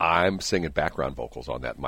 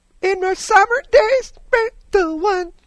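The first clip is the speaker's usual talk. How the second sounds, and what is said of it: Sings in a falsetto voice. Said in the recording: “my falsetto voice”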